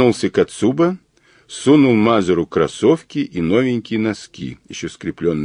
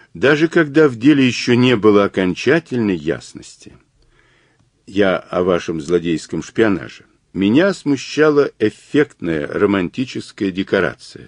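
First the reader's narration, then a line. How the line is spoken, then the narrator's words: Plain. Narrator (Russian): сказал Глаголев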